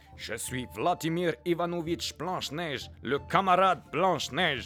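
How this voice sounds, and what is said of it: Put-on Russian accent. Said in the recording (French): “elle parle avec un accent russe”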